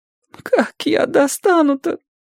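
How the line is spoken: Crying. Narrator (Russian): Он уже не всхлипывал, а плакал

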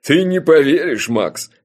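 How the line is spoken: Speaking through laughter. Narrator (Russian): сквозь смех выговорил он

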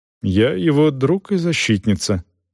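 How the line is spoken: Calm reply. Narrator (Russian): спокойно ответила Дорс

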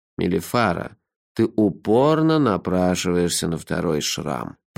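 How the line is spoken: Grumbling. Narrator (Russian): проворчал Лонли Локли

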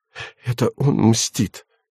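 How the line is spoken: Hoarse. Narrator (Russian): продолжала Юля хриплым голосом

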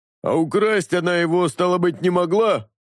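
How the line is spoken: Grinning snort. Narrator (Russian): Осклабившись, хмыкнул кровь

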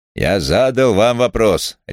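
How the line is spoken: Barked. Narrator (Russian): рявкнул инспектор

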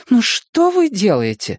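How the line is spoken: Desperate mother's exclamation. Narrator (Russian): воскликнула мама в отчаянии

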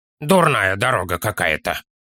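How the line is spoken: Child grumbling. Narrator (Russian): проворчал малыш

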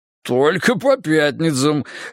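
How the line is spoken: Chuckling reply. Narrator (Russian): хохотнул в ответ Тимоха

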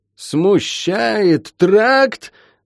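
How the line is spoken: Furious yelling. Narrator (Russian): заорал покрасневший от злости Шен

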